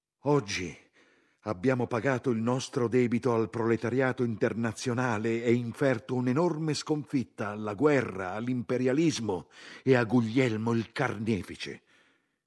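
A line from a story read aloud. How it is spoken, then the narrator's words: Shouted. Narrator (Italian): Zinoviev gridava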